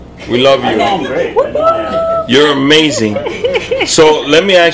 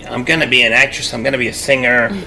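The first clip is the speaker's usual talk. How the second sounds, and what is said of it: Imitates another person's voice. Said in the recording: “This is Karina's voice. That's if you don't know her, that's exactly how she talks.”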